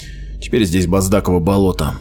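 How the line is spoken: Gloomy. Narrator (Russian): мрачно произнес Меггин

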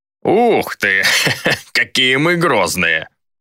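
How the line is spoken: Loud laughter. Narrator (Russian): захохотал колдун

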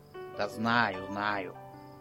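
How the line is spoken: Grumbling. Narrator (Russian): пробурчал

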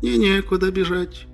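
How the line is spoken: Sad gnome. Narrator (Russian): печально сказал гном

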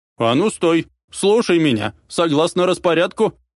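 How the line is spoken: Yelled. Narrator (Russian): заорала

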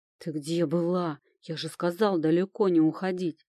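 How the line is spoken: Frightened growl. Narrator (Russian): прорычал Люк, испуганно

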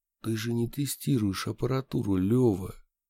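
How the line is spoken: Quiet. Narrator (Russian): тихо сказал я

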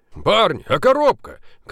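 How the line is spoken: Shouted after them. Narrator (Russian): крикнул им вдогонку Поляковский

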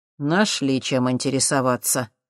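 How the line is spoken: Displeased grumble. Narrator (Russian): недовольно проворчал Воронин

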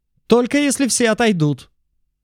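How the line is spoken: Loud shout. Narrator (Russian): громко выкрикнул он

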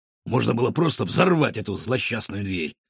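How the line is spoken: Grumbling. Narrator (Russian): разворчался Рикошет

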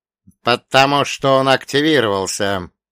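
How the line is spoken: Gloomy reply. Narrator (Russian): мрачно ответила Глория

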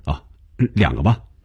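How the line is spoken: Hasty, laughing. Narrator (Chinese): 红军一下子笑了，忙笑着说

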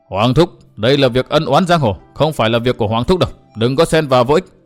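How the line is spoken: Harsh, menacing voice. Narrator (Vietnamese): Gã thái tử gằn giọng

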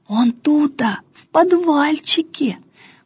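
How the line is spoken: Secretive whisper. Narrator (Russian): потаенным шепотом объяснял Филиппка

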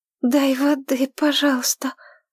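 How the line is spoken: Hoarse rasp. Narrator (Russian): прохрипела она

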